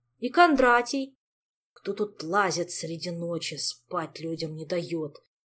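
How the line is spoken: Grumbling. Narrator (Russian): проворчал Жак

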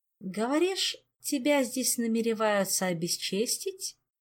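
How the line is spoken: Tender cooing. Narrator (Russian): ласково проворковал Райл

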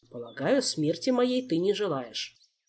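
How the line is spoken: Calm, smiling. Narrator (Russian): спокойно улыбнулся король

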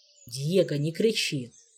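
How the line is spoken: Calm, unshakable. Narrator (Russian): Все так же спокойно, непрошибаемо, как та самая стена, в которую принято биться лбом

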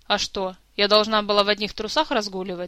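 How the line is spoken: Snapping. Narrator (Russian): огрызнулась Кира

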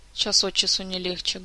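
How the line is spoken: Sorrowful sigh. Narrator (Russian): горестно вздохнула Марга

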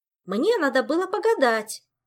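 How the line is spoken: Loud snapping child. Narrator (Russian): огрызнулась дочурка, точно так же на весь дом

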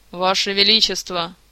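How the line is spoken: Booming from above. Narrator (Russian): прогремело из-под потолка

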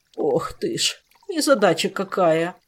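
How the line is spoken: Groaning. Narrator (Russian): простонал мэтр Силантий

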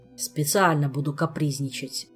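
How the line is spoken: Grumbling. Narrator (Russian): проворчал Кантор

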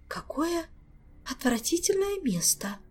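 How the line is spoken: Shivering whisper. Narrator (Russian): прошептала матресса Алиенна, ежась словно от холода

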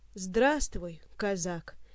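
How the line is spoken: Quiet, forced smile. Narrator (Russian): негромко произнес разоблаченный гость, честно пытаясь изобразить улыбку

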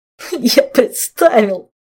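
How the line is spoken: Groaning, suppressing laughter. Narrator (Russian): простонал Жак, честно стараясь придавить невежливый хохот

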